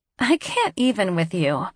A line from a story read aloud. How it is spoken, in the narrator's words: she says, finally cracking a smile and laughing